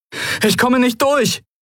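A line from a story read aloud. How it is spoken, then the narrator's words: Call. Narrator (German): rief Kai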